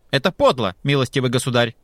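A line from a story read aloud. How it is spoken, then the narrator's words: Angry shout. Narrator (Russian): крикнул он сердито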